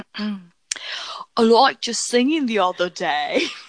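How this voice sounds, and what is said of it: Put-on British accent. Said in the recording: “this is a British show, by the way, so here comes the accent ... I have the best British accent this side of the”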